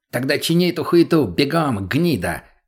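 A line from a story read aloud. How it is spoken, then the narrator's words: Harsh bark. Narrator (Russian): рявкнул наркоман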